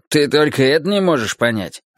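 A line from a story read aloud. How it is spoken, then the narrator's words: Sarcastic question. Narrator (Russian): спросил Юджин язвительно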